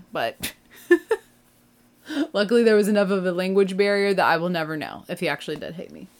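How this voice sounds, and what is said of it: American accent. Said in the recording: “as a person from America, and with the accent that I have”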